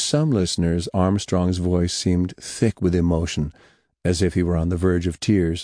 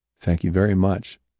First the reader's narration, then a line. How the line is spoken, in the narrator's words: Nixon said